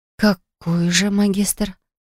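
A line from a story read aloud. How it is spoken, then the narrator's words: Female whisper. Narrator (Russian): шепнула я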